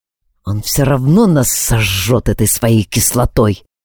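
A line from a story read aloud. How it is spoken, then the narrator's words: Very quiet mutter. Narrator (Russian): пробормотал Алекс так, что расслышал только я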